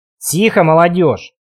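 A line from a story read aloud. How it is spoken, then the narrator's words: Irritated interruption. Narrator (Russian): Маурер раздраженно прервал нас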